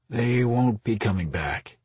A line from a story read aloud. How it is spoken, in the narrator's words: he replied with a sigh